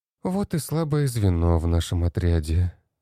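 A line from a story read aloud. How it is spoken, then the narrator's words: Sighing. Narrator (Russian): вздохнула Кристина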